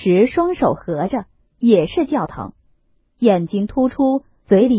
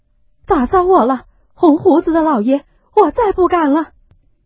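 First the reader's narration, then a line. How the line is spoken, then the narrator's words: Sobbing, begging for mercy. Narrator (Chinese): 赵姨娘说一回哭一回，叫饶说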